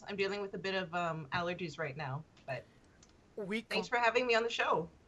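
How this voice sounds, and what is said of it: Voice sounds off, unwell. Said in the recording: “Sorry for my voice.”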